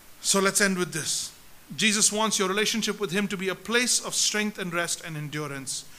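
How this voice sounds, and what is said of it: Usual voice. Nothing is said of it.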